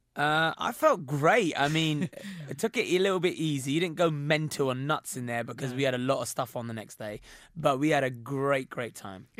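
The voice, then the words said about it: Hoarse, husky voice. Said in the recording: “my voice is so hoarse right now ... it's quite sexy, actually ... a bit more of a husky, sexy tone ... I'm basically losing my voice ... rest your voice”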